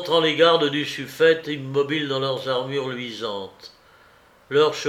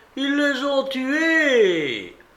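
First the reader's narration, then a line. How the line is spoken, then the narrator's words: Shouted in Balearic. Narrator (French): qu'il criait en baléare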